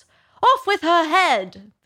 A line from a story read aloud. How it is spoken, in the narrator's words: the Queen shouted at the top of her voice